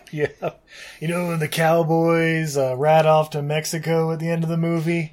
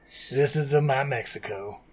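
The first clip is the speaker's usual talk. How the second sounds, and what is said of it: Imitates a movie character's voice. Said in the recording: “my Han impression spot on”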